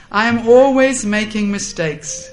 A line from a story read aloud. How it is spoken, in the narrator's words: laughing, Parvati replied to Jamuna and she said